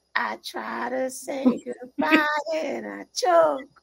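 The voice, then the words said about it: Sung impression of an aunt. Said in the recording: “great impression ... That is exactly how she sings. I think it was very spot on.”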